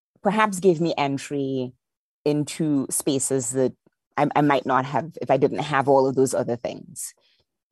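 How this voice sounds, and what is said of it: Lilting Trinidadian accent. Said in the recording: “I have a lilt in my accent ... I lost some of my Trinidadian accent, but for the most part, I tried to retain it”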